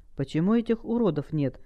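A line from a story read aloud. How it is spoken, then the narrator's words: Plain. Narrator (Russian): спросила наемница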